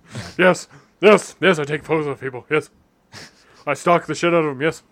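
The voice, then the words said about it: Imitates another person's voice. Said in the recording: “my Robin Williams impersonation.”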